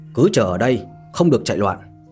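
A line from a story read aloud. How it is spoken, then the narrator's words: Cold reply. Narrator (Vietnamese): Đội trưởng cận vệ lạnh lùng đáp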